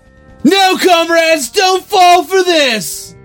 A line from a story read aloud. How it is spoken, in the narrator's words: I yelled